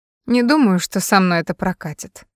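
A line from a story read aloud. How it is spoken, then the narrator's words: Sighing. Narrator (Russian): Зои вздохнула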